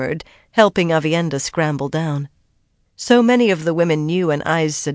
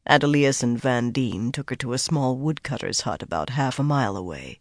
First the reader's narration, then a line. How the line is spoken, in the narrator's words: he replied just as quietly